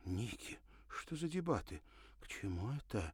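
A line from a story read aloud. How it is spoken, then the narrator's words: Anxious whisper. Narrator (Russian): прошептала Ирина, почувствовав беспокойство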